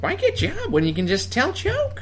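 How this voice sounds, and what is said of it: Exaggerated high-pitched Jay Leno impression. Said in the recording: “that's basically my Jay Leno, but I got that from Dana Carvey ... Jay Leno impression ... he's kind of got that higher pitch ... it's exaggerated, of course”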